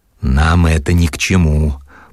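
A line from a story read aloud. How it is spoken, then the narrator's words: Hoarse, barely controlled. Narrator (Russian): Плохо владея собой и хрипло отвечал Черноусый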